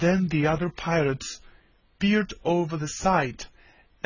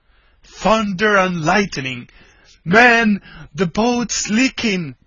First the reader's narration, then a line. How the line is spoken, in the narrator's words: Ben Ali suddenly bellowed out